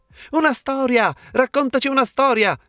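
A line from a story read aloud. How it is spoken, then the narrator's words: Children exclaiming together. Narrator (Italian): esclamarono infine i piccini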